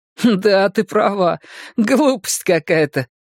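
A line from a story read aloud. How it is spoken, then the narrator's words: Laughing. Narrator (Russian): рассмеялся мышь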